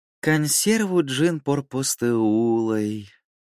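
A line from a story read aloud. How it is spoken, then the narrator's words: Tender cooing. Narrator (Russian): с нежностью проворковал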